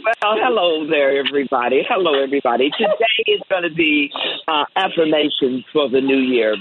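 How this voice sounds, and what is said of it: Smooth radio-announcer voice. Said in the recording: “her radio voice, everybody, that's her real voice”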